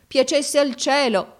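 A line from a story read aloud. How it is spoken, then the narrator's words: Crying exclamation. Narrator (Italian): esclamò mio fratello piangendo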